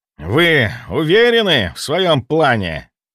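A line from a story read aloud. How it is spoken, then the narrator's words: Count's hiss. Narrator (Russian): прошипел граф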